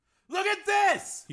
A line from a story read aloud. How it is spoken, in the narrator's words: He yelled